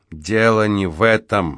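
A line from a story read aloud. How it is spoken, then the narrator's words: Gloomy objection. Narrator (Russian): мрачно возразил Спинк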